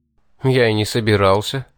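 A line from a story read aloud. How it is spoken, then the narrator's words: Snorting. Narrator (Russian): хмыкнул я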